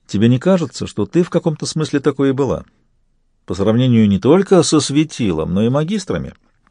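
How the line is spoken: Gently asked. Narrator (Russian): Сварог мягко спросил

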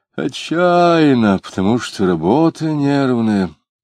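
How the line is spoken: Explained with a sigh. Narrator (Russian): объяснил он, вздохнул

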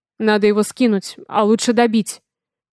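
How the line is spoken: Growled. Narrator (Russian): прорычал он

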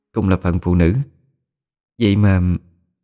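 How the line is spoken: Sighing. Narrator (Vietnamese): Liễu Thi thở dài

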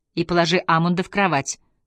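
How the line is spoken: Plain. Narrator (Russian): сказала Ингер Йоханне

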